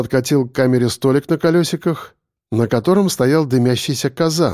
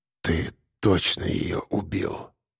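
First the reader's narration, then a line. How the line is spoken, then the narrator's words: Desperate hopeful whisper. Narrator (Russian): шептал Строков, уже не веря, но все еще цепляясь за надежду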